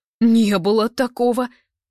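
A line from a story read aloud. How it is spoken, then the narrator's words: Sharp furious frightened squeal. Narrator (Russian): Слишком резко, при этом яростно, но испуганно взвизгивает Лысик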